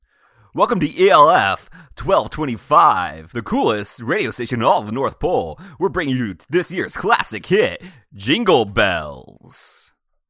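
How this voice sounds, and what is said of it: 2000s radio DJ voice. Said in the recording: “my 2000s yes. Radio voice”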